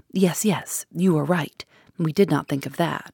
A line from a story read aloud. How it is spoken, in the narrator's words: The commissary exclaimed excitedly